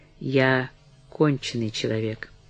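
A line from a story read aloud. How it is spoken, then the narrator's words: Quiet. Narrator (Russian): она прибавила тихо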